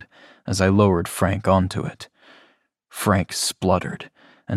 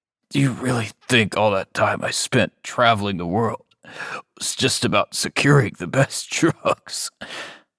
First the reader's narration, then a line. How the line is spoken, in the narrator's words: He chuckled despite the pain